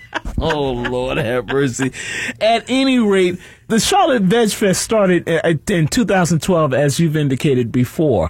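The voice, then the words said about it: Noticeable regional accent. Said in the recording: “tell me you got an accent without telling me you got an accent.”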